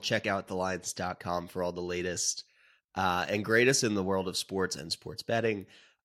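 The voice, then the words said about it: Congested voice, getting over a cold. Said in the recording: “If you could probably tell from my voice, I'm getting over a little bit of a cold.”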